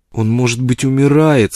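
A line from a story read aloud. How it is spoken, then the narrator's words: Pleading. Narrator (Russian): сказала Фрона умоляющим тоном, как будто для ее отца, совершившего в жизни так много, не существовало ничего невозможного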